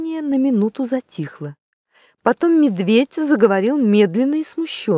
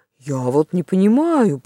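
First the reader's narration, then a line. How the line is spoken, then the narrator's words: Grumbling. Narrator (Russian): проворчал он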